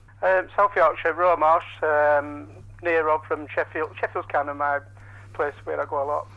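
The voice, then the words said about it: Regional South Yorkshire English accent. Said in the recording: “this is not the usual kind of home counties London accent ... here's a proper regional accent speaking.”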